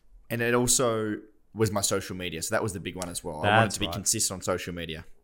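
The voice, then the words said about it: English accent. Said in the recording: “I don't know why you got an English accent, but you do today.”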